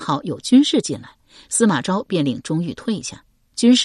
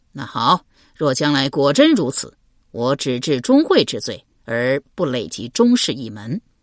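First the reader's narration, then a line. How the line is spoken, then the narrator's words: Laughing. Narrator (Chinese): 司马昭笑道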